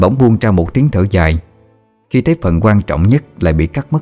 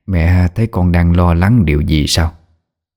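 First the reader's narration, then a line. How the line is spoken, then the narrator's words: Blurted question. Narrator (Vietnamese): Bà Liễu buộc miệng hỏi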